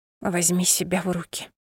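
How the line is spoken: Whisper. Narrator (Russian): прошептала

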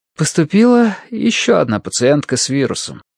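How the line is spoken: Sighing. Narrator (Russian): вздохнула Мэри

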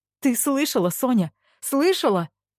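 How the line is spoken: Desperate pleading. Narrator (Russian): взмолилась она, словно утопающая

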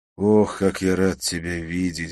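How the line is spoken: Sigh. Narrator (Russian): вздохнул я

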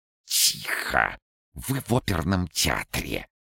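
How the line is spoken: Hissing whisper. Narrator (Russian): отозвался тот шипящим шепотом

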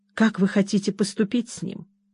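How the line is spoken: Quiet undertone question. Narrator (Russian): спросил его Джордж вполголоса

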